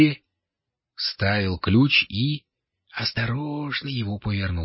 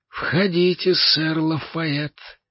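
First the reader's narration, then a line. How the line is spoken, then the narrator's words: Gloomy invitation. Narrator (Russian): мрачно пригласил его король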